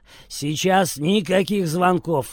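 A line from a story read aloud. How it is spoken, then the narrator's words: Barked. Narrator (Russian): рявкнул он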